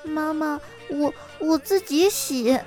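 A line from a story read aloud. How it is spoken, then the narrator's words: Quiet. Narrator (Chinese): 女儿小声的说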